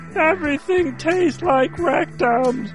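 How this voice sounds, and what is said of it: Grover puppet character voice. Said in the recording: “my Grover impression. It sounds much like my Ray Romano.”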